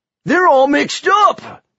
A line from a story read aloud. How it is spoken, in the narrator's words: shouted